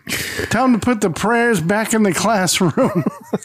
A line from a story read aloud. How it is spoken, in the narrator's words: Archie yells